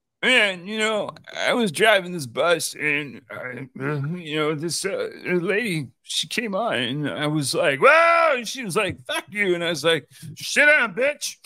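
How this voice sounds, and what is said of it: Imitates another person's voice. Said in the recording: “That is my impression for the week... hold on, I can do better”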